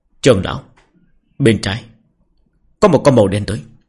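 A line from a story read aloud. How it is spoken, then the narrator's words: Quiet voice. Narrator (Vietnamese): Tần Quan nhỏ giọng nói với Nghĩa Hữu Đạo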